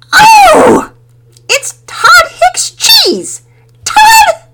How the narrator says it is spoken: She was pretty much shrieking by that point

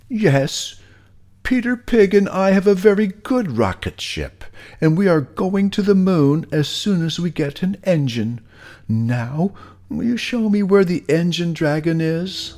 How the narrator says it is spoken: It hurt Molasses Pig's feelings, so he shouted back

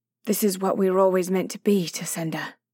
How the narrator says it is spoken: Willia said

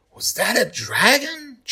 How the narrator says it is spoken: Charlie whispers

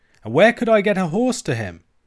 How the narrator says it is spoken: cried Alan, with the same appearance of fury

